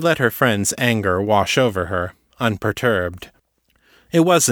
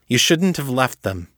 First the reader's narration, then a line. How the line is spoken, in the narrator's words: Kate snapped